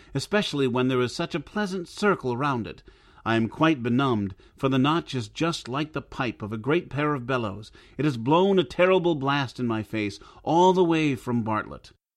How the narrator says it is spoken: cried he

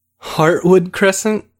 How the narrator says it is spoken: Victor said with a laugh

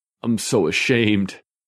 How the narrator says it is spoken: Bald Bob said in a whimpering voice

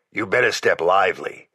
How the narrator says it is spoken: Jack warned me, in that gravelly voice of his that always sounded the same whether sober or stewed

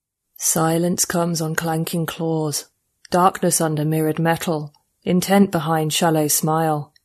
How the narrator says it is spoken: he said, a subsonic rumble pitched up to human hearing by a transcoder strapped around his thick stub of a neck

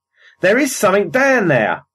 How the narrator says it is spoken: he shouted

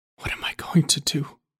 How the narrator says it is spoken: he whispered to no one

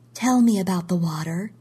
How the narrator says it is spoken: we said

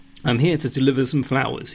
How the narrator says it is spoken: he says

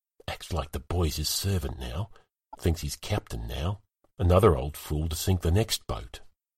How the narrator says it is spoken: whispering

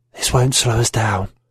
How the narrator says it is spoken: She smiled, a red, evil crescent, and whispered

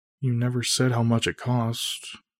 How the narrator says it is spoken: Emily mutters

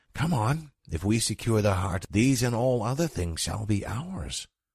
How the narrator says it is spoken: he whispered

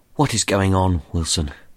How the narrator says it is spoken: said, as calmly as possible

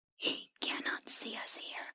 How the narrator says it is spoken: the creature whispered to her

